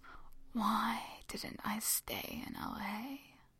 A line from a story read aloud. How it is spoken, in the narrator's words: Jin has whispered to himself